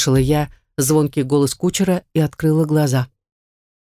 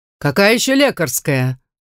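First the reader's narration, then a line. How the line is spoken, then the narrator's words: Yelling in a strange voice. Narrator (Russian): заорал дракон не своим голосом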